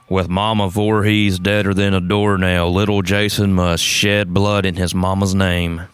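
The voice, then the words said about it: Sam Elliott impression. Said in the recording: “I'm going to do my Sam Elliott voice.”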